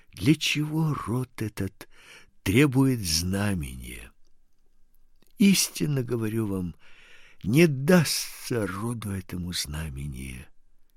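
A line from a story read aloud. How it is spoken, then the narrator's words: Deep sigh, then speech. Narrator (Russian): глубоко вздохнув, сказал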